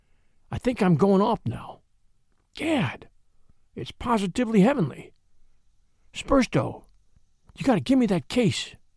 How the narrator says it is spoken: he whispered

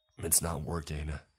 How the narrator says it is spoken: he grunted

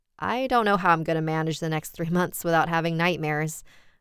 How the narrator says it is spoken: I laughed

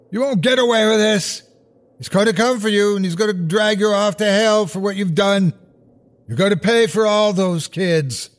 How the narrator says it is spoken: I heard Rottenbacher shouting

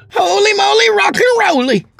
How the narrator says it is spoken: Craig hollered

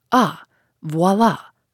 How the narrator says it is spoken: cried the magistrate, shaken in spite of himself

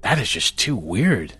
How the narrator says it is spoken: Casey breathed

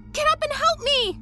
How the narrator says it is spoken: she cried to Megan

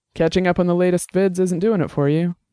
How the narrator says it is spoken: Dex asked

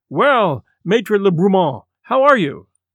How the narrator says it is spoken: the Baron pressed it warmly, asking

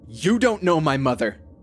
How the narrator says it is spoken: I was surprised at how much I raised my voice

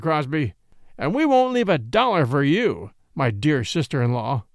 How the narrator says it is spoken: snarled Austin, his face white with rage

